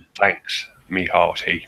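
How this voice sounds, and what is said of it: Pirate voice. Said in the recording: “the pirate voice”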